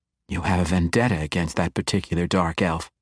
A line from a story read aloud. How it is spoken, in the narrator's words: she whispered